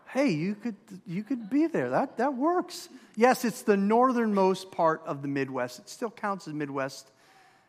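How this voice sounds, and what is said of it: Minnesotan accent. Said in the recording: “If you haven't figured it out by my accent or my wife's, we grew up in Minnesota.”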